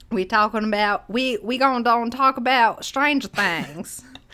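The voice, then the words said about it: Put-on Florida Panhandle accent. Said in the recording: “Florida accents. Panhandle. ... That's my Swamp Man talk.”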